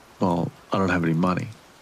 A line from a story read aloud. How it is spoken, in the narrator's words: he said flatly